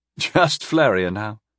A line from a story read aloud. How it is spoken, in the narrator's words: Festaren chuckled